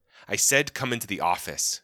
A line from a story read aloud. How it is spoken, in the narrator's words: snapped